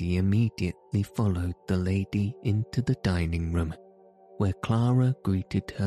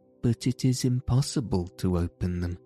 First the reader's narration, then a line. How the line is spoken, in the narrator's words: Heidi said sadly